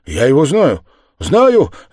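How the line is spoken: Shouted. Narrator (Russian): закричал он

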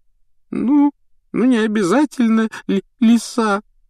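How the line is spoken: Tearful reply. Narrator (Russian): ответила Лаванда, сквозь слезы

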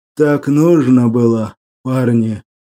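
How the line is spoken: Muffled, hollow voice. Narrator (Russian): глухо произнес Тивон

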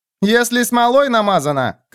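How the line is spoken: Shouting. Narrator (Russian): крикнул Целуй

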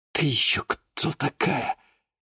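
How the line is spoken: Barely audible whisper. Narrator (Russian): чуть слышно прошептал Денис

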